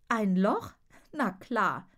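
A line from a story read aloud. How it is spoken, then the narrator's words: Laughing. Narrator (German): lacht sie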